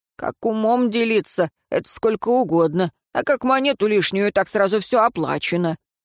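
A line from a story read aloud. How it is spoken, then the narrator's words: Grumbling. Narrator (Russian): Смерть проворчал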